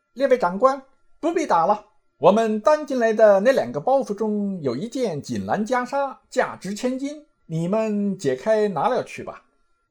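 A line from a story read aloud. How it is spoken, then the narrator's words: Calling out. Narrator (Chinese): 行者便叫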